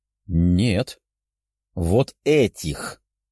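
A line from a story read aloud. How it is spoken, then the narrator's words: Malicious smirk. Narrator (Russian): Злобно ухмыльнулся следователь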